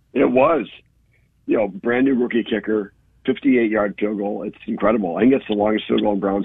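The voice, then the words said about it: Hoarse voice. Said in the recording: “my voice is kind of hoarse. ... I was cheering my head off”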